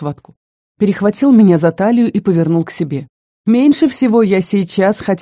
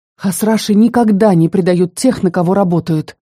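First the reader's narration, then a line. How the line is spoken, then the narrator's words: Strangled wheeze. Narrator (Russian): сдавленно прохрипела я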